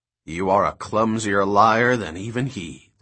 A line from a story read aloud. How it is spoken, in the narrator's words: the man said